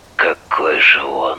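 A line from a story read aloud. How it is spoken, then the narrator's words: Hoarse voice. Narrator (Russian): хрипло сказал Андрей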